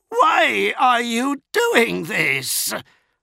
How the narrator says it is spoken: shrieked

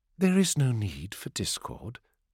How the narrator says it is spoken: said Ona, his voice remaining placid

